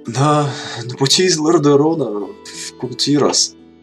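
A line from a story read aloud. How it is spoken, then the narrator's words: Strained, uncertain. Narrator (Russian): выдавил Кадгар, неуверенный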